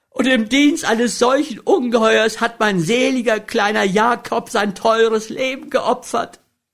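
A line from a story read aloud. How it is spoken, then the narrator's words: Sob-choked interrupting cry. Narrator (German): ihre Mutter sie mit vor Schluchzen erstickter Stimme unterbrach und rief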